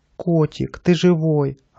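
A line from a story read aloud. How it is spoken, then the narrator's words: Joyful shout from barrel. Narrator (Russian): радостно закричала Наташа из бочки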